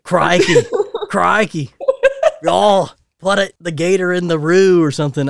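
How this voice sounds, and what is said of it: Bad put-on Australian accent. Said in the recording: “I am doing a really bad Australian one... So, yeah, Australian accent. I'll work on it.”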